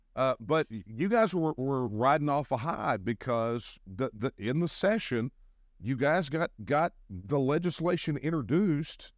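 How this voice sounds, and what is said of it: Noticeable own accent. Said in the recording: “It's funny to hear people laugh at my accent”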